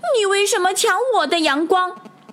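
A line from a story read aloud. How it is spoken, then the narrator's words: Angry yelling. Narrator (Chinese): 他气不打一处来，跑过去嚷道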